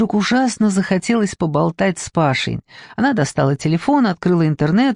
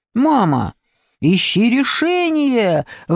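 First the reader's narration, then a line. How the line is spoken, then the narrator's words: Son exclaiming. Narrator (Russian): воскликнул бы сын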